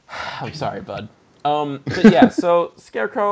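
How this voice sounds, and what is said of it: Usual voice. Nothing is said of it.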